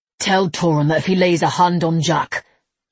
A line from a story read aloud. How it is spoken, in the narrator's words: Levi snarled